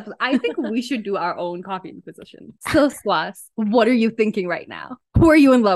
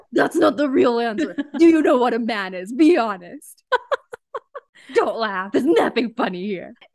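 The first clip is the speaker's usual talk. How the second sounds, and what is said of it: Mock scary interrogating voice. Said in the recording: “This is my scary voice.”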